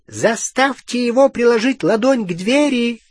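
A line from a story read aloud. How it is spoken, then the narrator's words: Shout. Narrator (Russian): крикнул крюкохват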